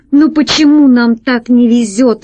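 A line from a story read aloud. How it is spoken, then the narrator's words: Exclaiming. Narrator (Russian): воскликнул Пашка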